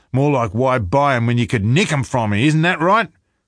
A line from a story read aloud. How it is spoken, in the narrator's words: Deacon said, his voice rising